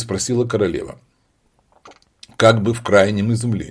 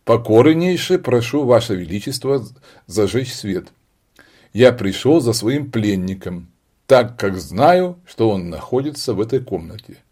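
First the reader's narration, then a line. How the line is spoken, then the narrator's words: Dry, curt. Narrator (Russian): сухо ответил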